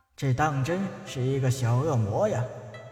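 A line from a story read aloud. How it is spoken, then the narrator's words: Inward sigh. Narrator (Chinese): 他长长的出了一口气，暗叹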